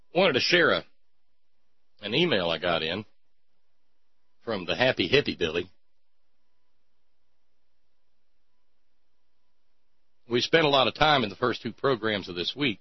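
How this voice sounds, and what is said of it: Exaggerated cornpone rural accent. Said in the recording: “can I give up the cornpone accent yet?”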